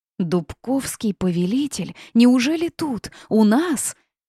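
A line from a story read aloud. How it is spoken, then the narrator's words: Growing crowd exclamations. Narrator (Russian): Все громче раздавались возгласы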